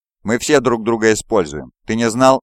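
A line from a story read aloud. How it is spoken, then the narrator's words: Laughing. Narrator (Russian): рассмеялся Фулгрим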